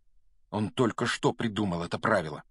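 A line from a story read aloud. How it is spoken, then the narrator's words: Angry mutter. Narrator (Russian): сердито пробормотал Гарри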